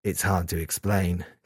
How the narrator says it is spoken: Kazuya said quietly

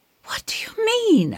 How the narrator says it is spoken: I gasp

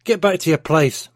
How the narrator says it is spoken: Mark shouted

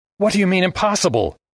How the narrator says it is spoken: Armitage yelped

